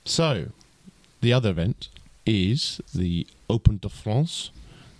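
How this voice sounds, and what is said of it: Put-on French accent. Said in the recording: “So I put on a French accent there.”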